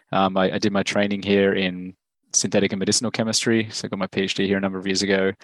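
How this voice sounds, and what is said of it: Australian accent. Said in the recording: “as you can probably tell from my accent, I'm from Australia.”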